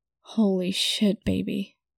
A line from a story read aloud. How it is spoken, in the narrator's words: groaned unthinkingly